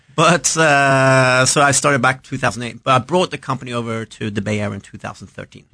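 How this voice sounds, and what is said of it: Swedish accent. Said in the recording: “I realized you had an accent ... You're from Scandinavia ... I'm Swedish”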